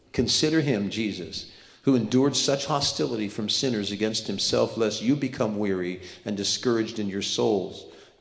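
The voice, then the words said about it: Reading aloud quickly. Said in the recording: “I'll read this fast.”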